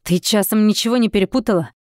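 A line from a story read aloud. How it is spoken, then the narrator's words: Angry hiss. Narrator (Russian): Злобно зашипела она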